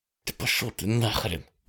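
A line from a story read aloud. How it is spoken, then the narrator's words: Hissed through gritted teeth. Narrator (Russian): процедила она сквозь зубы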